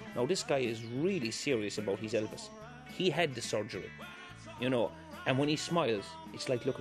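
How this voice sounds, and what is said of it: Usual voice. Nothing is said of it.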